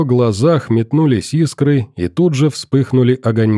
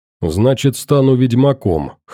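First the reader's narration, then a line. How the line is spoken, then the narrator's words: Wry snort. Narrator (Russian): хмыкнул я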